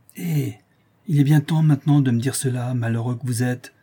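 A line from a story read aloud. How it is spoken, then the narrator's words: Furious shout. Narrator (French): s'écria Florestan furieux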